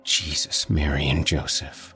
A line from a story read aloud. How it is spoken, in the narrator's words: whispers